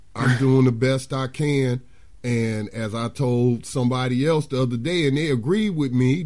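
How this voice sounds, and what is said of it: Hoarse, fading voice. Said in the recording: “I'm kind of losing my voice... if I sound a little hoarse”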